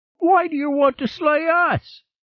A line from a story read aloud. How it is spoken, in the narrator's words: A rat whined at Torleap